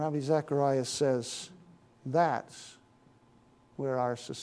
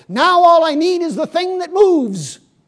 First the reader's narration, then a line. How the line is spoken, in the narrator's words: The village man ... he said to himself with a triumphant shout